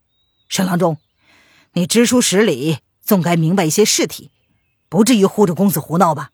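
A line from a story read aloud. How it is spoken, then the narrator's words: Stunned, angry. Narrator (Chinese): 他愣了愣，恼怒的道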